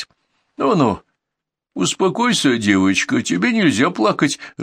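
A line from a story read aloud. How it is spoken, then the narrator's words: Flustered soothing. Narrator (Russian): растерянно говорил министр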